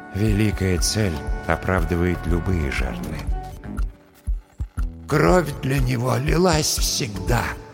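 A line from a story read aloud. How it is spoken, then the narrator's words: Sad whisper of dead man. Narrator (Russian): грустно прошептал в моей голове голос мертвого аптекаря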